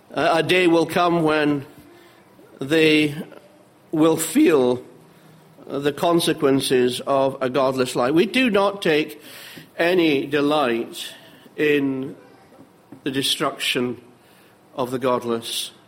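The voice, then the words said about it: Scottish Edinburgh accent. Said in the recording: “if it isn't obvious to you already by my accent, I have to confess that I come from Edinburgh”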